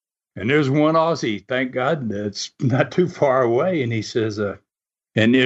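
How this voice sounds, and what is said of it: Usual voice. Nothing is said of it.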